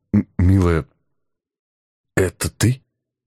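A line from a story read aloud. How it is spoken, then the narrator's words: Stammering, broken off. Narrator (Russian): Заикаясь не хуже присутствующего здесь Федора, начал было я, но осекся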